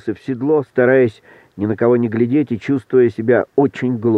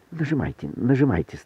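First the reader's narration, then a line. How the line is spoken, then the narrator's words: Passionate whisper. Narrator (Russian): страстно шептал докладчик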